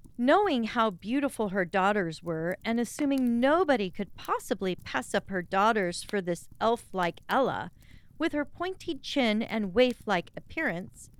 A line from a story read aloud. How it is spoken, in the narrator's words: the stepmother exclaimed